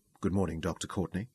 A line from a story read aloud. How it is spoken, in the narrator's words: said softly